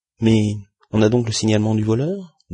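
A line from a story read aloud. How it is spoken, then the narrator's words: Plain question. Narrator (French): demanda Andrew Stuart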